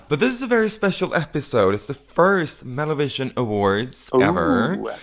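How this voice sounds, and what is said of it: Slightly raspy voice. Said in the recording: “we can hear that on the voice, a little bit raspy”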